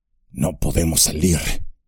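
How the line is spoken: Murmur. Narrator (Spanish): murmuró Gimli

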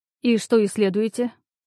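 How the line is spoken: Meaningful snort. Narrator (Russian): Мужчина многозначительно хмыкнул

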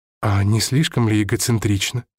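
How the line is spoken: Plain question. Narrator (Russian): спросил я

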